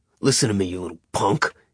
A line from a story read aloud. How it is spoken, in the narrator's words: he snarled in Nick's face